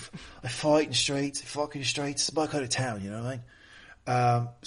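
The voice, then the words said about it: Put-on English accent. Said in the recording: “What with the accent? ... I can't do it too long or I'll go to Australian.”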